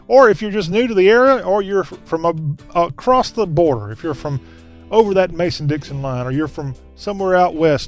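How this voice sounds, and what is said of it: Southern US accent. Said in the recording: “Whether you talk with a southern accent, kind of like me, I got a pretty good accent, but there's people who have much better southern accents than me.”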